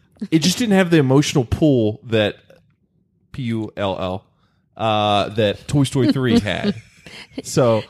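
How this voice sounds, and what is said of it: Speaks in a put-on accent. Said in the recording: “with an accent”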